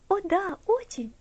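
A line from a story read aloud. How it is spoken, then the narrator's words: Cheerful reply. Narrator (Russian): весело ответила Элси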